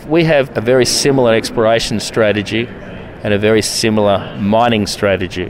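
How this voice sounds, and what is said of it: Australian accent. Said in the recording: “you clearly have an Australian accent”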